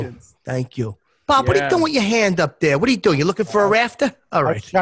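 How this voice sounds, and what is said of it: Usual voice. Nothing is said of it.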